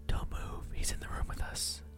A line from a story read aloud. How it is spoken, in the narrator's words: my wife whispered